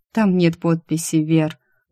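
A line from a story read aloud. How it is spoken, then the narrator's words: Tired. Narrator (Russian): устало произнесла я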